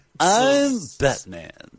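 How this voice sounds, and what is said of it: Imitates another person's voice. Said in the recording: “my John Lovitz impression”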